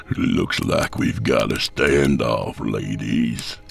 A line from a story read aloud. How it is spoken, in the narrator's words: Vance growled